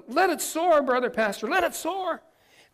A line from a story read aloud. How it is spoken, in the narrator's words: the congregation shouted